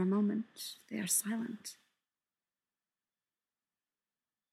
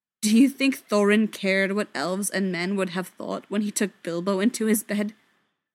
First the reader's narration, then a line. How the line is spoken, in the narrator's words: asks bitterly